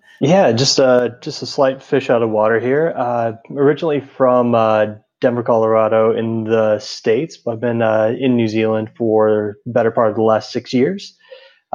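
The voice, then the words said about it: Foreign, non-New Zealand accent. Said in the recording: “your accent, doesn't sound like you're from like Tai Happy in New Zealand here. I think it's from offshore somewhere”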